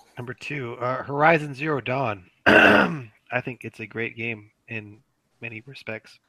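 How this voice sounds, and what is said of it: Hoarse, fading voice. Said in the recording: “I'm losing my voice. I can't say very much.”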